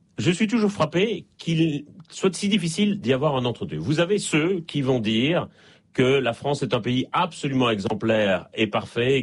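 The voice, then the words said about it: Slight Belgian French accent. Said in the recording (French): “ça s'entend un peu d'ailleurs à mon accent, je suis en Belgique et je ne suis pas né en France”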